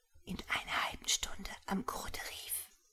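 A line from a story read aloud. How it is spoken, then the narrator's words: Whisper. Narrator (German): gelang es Natascha, ihrem jungen Freunde Jakob zuzuflüstern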